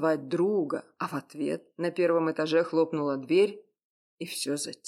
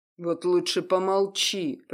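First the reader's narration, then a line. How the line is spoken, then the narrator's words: Through gritted teeth. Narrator (Russian): процедил сквозь зубы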